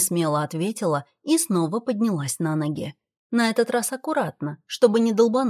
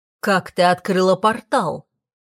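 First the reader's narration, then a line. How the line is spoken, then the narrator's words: Rough, harsh. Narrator (Russian): грубо произнес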